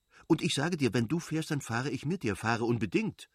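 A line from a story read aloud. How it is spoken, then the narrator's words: Hasty, angry. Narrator (German): hob sie hastig und zornig an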